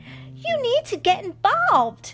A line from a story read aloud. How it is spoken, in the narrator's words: Lucy exclaimed